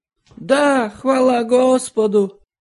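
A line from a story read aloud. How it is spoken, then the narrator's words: Jubilant shout. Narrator (Russian): ликующе выкрикнул кто-то из колясочников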